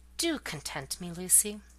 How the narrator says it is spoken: coaxingly, he said softly

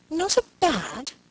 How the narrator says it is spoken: exclaimed

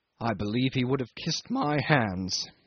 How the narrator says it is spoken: said Jim savagely

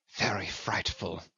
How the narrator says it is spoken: he murmured

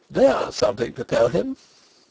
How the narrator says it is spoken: laughing and crying

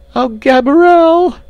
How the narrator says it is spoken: screamed

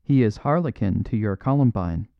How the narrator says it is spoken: said Crook

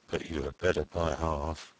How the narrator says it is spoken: muttered Joey Ladle inaudibly

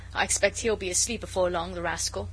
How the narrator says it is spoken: Jellyband with a laugh

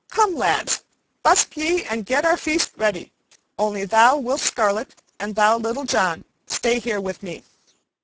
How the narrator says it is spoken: he cried

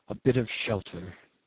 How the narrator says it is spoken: mumbled

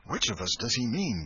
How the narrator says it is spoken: gasped Huckleberry

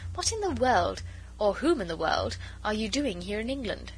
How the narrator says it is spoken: she added merrily

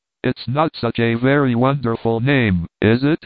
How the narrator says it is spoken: said, with a laugh to break the intensity

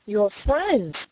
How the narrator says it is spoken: she cried

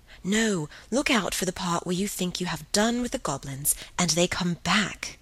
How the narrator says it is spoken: breathed Helen

